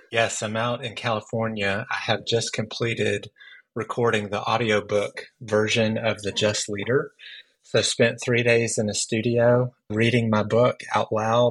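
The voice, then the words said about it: Tired-sounding voice. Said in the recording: “My voice is tired ... Yeah, your voice is tired.”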